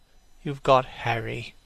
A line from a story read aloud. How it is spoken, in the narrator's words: said Hallward sadly